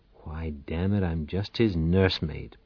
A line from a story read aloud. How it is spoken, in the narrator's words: Powell muttered